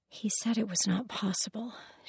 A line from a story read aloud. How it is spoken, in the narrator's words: she whispered